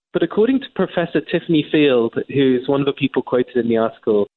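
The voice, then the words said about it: English accent. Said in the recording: “As an Englishman, as you can tell by my accent”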